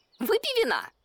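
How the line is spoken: Cheerful offer. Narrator (Russian): бодро предложил мартовский заяц

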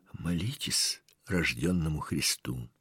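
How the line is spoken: Old man sighing, whispering. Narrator (Russian): Старик тоже вздохнул и таким же шепотом сказал

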